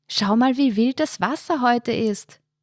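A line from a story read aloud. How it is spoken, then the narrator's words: Shout drowned by wind. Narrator (German): rief sie Markus zu, ihre Stimme wurde fast vollständig vom Wind verschluckt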